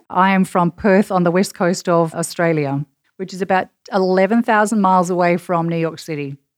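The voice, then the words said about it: Australian accent. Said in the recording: “you have a fabulous Australian accent”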